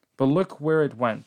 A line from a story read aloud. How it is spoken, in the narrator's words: I said